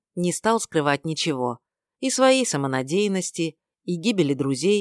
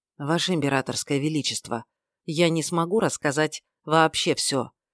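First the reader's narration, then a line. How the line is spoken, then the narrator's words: Quiet warning. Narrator (Russian): тихо предупредил Рен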